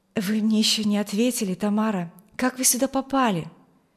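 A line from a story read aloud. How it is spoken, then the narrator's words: Pleading. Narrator (Russian): Умоляющим тоном спросил ее юноша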